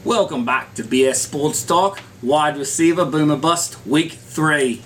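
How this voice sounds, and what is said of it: Unconvincing put-on accent. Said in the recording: “It's not a real accent there. ... gave it a go.”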